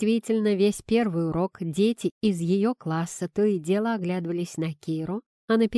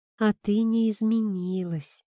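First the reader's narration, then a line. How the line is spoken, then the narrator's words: Soft. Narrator (Russian): мягко сказала Аня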